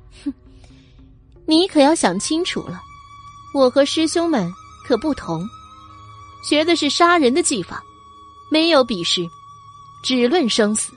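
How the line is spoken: Cold sneer. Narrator (Chinese): 冷笑的说道

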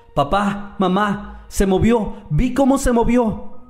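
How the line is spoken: Shouting. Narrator (Spanish): gritaba

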